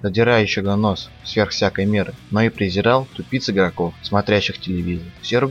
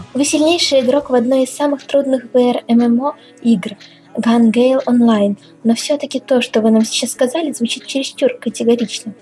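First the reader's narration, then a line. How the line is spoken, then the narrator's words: Sweet female voice. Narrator (Russian): Ведущая девушка сладким голосом произнесла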